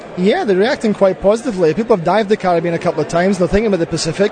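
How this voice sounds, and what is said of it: Scottish accent. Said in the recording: “that's not a Fijian accent ... This is a Scottish accent.”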